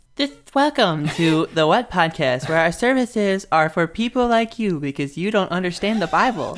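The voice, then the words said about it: Imitates a podcast host's intro voice. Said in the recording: “what's her name does for the what podcast ... Pretty that good is, impression, huh? ... pretty good impression ... It's definitely not what she says, though.”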